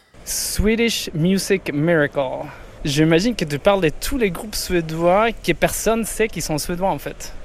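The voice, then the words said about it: Swedish accent speaking French. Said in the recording (French): “Avec son plus bel accent”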